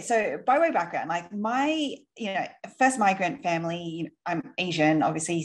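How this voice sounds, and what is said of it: Australian accent. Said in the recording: “you might be able to tell by my accent. I am Aussie.”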